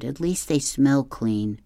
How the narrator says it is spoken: she moaned

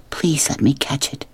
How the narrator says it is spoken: Sistine whispered again

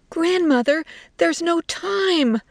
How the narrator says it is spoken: Little Pig's wife screamed

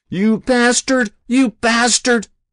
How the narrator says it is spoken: Ozzy screamed

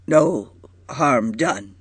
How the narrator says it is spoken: said brokenly

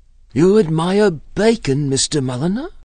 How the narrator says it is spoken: she asked eagerly

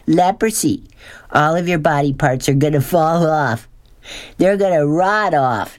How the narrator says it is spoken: Norton yelled

